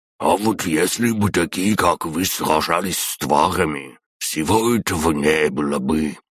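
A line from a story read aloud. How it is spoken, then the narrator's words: Old man's wheeze. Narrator (Russian): прохрипел какой-то старик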